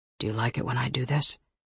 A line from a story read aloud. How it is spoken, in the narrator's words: He asks thickly